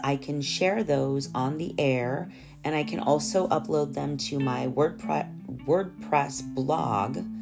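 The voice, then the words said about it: Hoarse, deeper than usual voice. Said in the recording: “I'm sure you can tell that I've been battling a cold. I'm probably sounding a little hoarse, and my voice is a little deeper than usual.”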